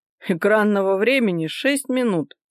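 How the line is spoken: Snorted. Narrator (Russian): фыркнул Виктор

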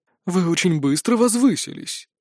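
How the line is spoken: Unctuous sugary tone. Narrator (Russian): елейным тоном заявил Синераэль

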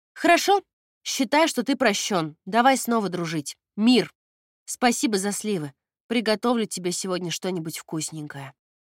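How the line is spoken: Loud. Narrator (Russian): громко произнесла

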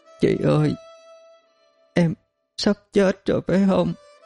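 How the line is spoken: Sobbing child. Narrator (Vietnamese): Trong giọng nức nở của con bé

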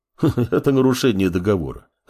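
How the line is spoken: Chuckling. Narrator (Russian): хохотнул Мамор

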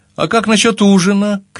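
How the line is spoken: Shouting after someone. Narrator (Russian): крикнула мне в спину

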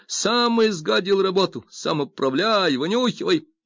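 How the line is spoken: Enraged yelling. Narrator (Russian): Тот вскипел и заорал

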